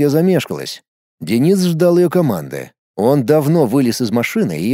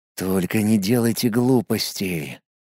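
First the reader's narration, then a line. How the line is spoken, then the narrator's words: Whispered. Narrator (Russian): прошептал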